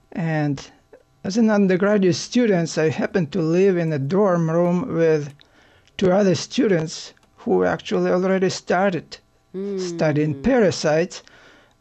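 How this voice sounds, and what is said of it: Ukrainian accent. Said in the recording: “as you can tell from my accent, I'm not born in the United States. I'm a Ukrainian by origin.”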